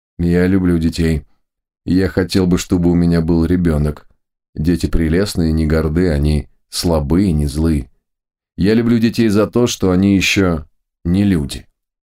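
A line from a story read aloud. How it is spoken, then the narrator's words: Pensive tone. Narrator (Russian): Этот странный человек сказал задумчивым тоном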